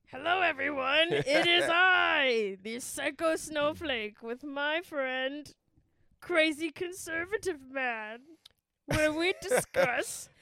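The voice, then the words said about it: Cartoon villain character voice. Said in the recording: “What are you, Plankton? Are you doing your best? Are you doing your best Plankton impression?”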